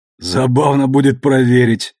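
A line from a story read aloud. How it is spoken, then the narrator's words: Laughing. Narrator (Russian): снова засмеялся Амос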